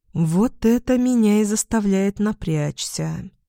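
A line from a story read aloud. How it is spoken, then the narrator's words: Gloomy mutter. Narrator (Russian): мрачно пробормотала Червона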